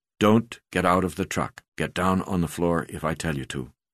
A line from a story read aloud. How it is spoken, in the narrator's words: I whispered to Delia